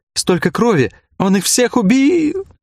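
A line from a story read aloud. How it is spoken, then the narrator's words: Sobbing. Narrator (Russian): Снова начались рыдания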